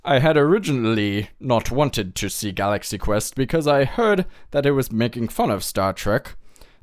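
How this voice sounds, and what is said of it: Put-on accent reading a review. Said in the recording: “I'm gonna go ahead and try some accents. ... Apologize beforehand.”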